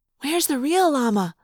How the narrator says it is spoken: Cassie whispered

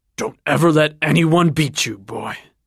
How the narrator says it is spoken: grunted at his son

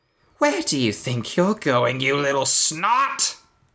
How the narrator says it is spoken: Kevin spat

